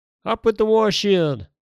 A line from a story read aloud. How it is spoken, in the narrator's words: shouted King Harald